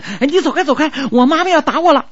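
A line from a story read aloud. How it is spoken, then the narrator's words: Shouting. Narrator (Chinese): 家乔喊的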